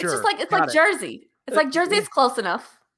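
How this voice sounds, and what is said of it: Thick New York accent. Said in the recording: “you have a very thick New York accent”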